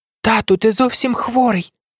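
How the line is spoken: Exclamation. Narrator (Ukrainian): вигукнула Саріанна

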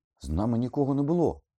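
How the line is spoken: Exclaimed. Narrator (Ukrainian): вигукнув Гаррі

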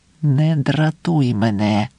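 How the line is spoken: Angry whisper. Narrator (Ukrainian): сердито прошепотіла Пілар

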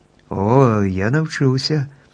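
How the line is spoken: Joyful exclamation. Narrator (Ukrainian): радісно вигукнув Страшило

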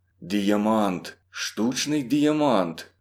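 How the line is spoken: Stunned whisper to himself. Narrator (Ukrainian): говорив до себе пошепки остовпілий Кіприян

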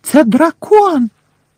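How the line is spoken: Frightened shriek, young girl. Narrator (Ukrainian): перелякано заверещала одна першокласниця

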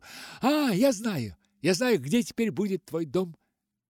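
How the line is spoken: Exclaimed. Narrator (Russian): воскликнула

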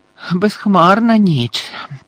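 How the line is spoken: Hoarse rasp. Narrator (Ukrainian): прохрипів Муді

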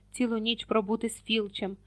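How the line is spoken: Heavy sigh. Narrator (Ukrainian): тяжко зітхнув Рон

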